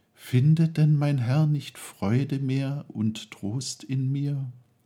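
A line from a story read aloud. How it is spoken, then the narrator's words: Sad tearful sigh. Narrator (German): sprach er, einmal nur wehmütig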